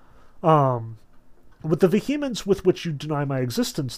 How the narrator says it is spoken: laughed the gentleman

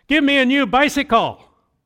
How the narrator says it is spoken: spoke quite loudly

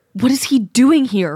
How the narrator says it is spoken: Ragged Pelt gasps

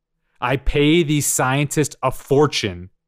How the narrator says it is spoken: he roared

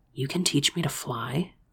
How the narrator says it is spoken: I whispered, smiling

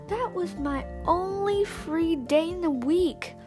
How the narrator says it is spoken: Anna sputtered

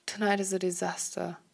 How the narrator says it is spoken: Harry chuckles

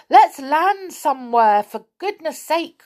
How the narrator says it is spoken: cried Rick

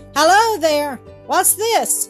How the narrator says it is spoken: cried Bobby, who was very much surprised

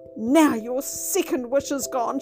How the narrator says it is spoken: she cried

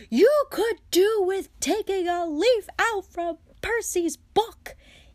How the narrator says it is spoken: yelled Mrs

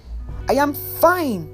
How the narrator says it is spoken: yell

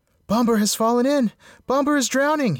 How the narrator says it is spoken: he cried

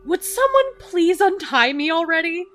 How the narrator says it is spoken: Dan snapped out of it and said loudly

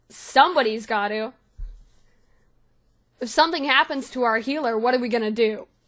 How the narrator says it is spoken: he looks down at her and sort of scoffs and goes

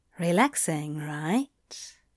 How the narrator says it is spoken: Anthony murmured

